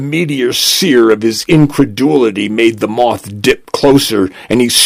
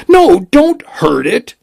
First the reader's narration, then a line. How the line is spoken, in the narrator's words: she cried